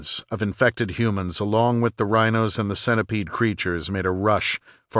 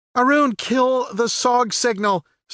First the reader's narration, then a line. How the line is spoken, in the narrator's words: Stacy screamed